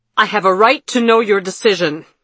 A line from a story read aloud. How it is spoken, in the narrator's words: Vandara shouted, her face twisted with rage